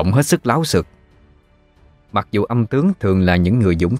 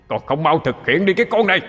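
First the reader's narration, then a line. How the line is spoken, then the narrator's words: Shouting. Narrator (Vietnamese): Tiếng nói kia lại quát lên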